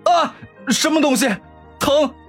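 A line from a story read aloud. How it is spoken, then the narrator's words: Sudden pained scream. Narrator (Chinese): 沈长勋突然痛苦的大喊一声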